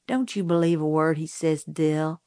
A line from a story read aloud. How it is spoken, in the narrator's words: I said